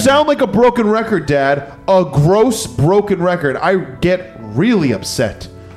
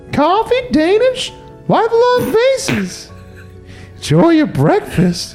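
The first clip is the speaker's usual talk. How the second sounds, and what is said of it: Waitress character voice. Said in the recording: “talking like a waitress”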